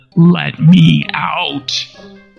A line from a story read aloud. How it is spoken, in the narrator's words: growled Heliogabalus in his deepest bass